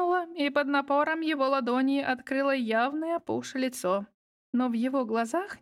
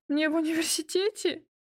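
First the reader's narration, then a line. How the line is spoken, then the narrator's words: Words broken by sobs. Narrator (Russian): Слова перемежались всхлипами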